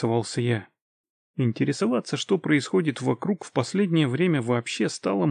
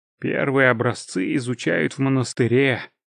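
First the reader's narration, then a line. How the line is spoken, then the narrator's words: Sighing. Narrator (Russian): вздохнул Мьелден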